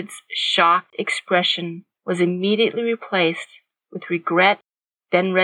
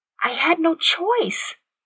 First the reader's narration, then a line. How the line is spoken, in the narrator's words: Katie said softly